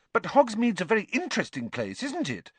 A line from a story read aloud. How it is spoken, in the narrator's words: Hermione pressed on eagerly